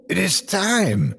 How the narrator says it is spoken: he exclaimed

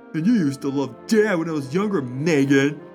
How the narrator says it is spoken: Jake snapped, his words dripping with vitriol

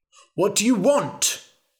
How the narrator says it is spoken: shouted the king

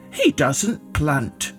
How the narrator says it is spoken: farmers said

